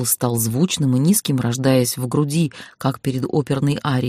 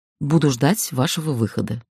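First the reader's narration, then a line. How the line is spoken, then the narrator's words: Quiet. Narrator (Russian): негромко произнес мой сопровождающий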